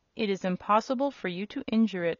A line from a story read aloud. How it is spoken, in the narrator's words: answered the other